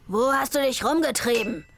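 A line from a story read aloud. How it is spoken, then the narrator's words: Shouted between blows. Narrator (German): schrie er zwischen zwei Schlägen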